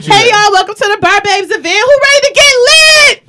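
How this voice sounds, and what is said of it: Hype DJ announcer voice. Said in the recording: “That's like a DJ a little bit ... you sound like my man's from Paid in Full”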